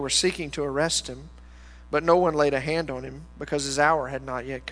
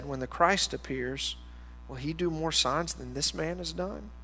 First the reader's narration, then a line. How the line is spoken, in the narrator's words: the crowd muttering